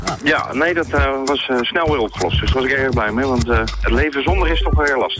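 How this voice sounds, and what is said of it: Rotterdam Dutch accent. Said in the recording (Dutch): “Hoor ik een Rotterdamse accent? ... Dat heb je heel goed gehoord, ja.”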